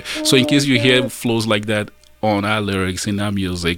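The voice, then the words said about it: Nigerian accent. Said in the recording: “you've lost the Nigerian accent, and I'm still struggling with mine. You hear that?”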